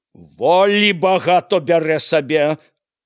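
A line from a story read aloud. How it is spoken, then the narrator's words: Shouting. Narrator (Belarusian): крычаў Яўхім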